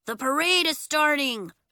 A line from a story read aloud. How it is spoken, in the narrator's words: Bax cried